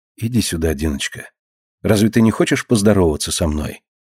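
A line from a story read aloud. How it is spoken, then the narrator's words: Affectionate, gentle. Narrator (Russian): ласково спрашивает она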